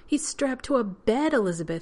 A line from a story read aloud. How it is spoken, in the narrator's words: he exclaimed, as if Carson had done it just to be cruel